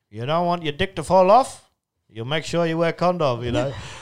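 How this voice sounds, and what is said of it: Exaggerated put-on Asian accent. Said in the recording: “that's the worst Asian accent I've ever done”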